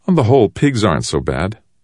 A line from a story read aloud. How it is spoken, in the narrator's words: Shen laughed